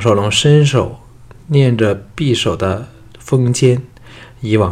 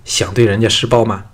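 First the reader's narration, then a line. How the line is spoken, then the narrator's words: Angry. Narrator (Chinese): 单柔 怒道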